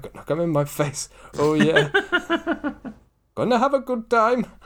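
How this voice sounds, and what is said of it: Singing in put-on Indian accent. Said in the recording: “I don't know why I'm doing this in an Indian accent. I'm doing the Bollywood version ... That was dreadful. That's my worst ever. That's probably my best ever Indian accent.”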